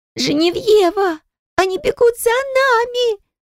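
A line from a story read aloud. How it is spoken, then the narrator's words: Deafening shriek. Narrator (Russian): завизжала Кара мне прямо в ухо, оглушая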